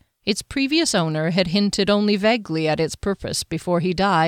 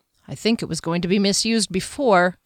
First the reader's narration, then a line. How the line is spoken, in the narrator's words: Kier muttered